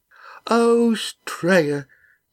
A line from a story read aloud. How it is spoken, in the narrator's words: said Molly tearfully